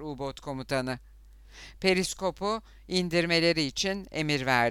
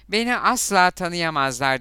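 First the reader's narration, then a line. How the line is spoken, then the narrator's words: Loud. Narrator (Turkish): dedi yüksek sesle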